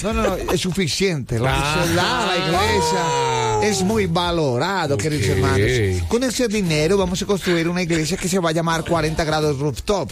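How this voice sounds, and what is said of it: Imitates a pastor's voice. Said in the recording (Spanish): “¿Para hacer la voz del pastor?”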